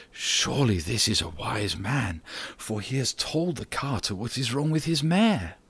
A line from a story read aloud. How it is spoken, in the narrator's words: the people who heard him whispered together and said